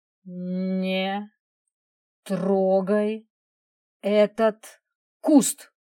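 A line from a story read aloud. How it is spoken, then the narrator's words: Slow, clear, slightly menacing. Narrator (Russian): Она проговорила это без тени улыбки, четко и медленно, слегка угрожающе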